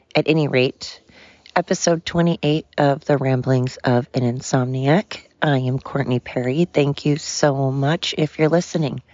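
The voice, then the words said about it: Strained, fading hoarse voice. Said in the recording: “Excuse my voice... my voice is a combination of allergies and exhaustion and just, so crying... I am losing it.”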